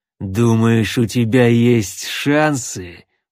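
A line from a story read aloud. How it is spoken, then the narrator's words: Through gritted teeth. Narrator (Russian): процедил сквозь кривые зубы Амбал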